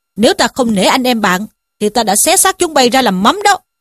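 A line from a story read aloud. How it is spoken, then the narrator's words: Threatening shout. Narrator (Vietnamese): Trí Thâm quát bảo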